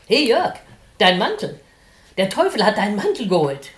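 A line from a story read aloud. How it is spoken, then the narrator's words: Gleeful call. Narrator (German): ruft, und das Herz lacht ihm dabei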